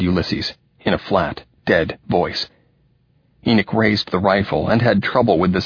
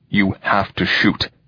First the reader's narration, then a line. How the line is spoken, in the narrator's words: Ulysses said, his voice tense and hard